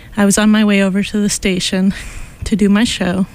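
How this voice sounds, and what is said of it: Slightly out of breath. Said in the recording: “Sorry I'm a little out of breath, but long story short, I was chased by a raccoon.”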